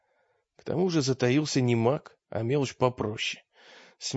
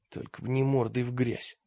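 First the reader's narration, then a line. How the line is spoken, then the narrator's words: Muttering. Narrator (Russian): пробормотал он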